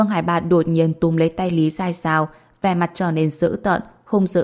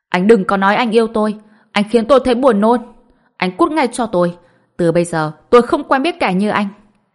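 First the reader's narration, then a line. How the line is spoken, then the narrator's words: Disgusted woman, loud shout. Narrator (Vietnamese): Trong mắt Lý Dài Dào đầy tơ máu, trên mặt ngập tràn sự chán ghét, hét to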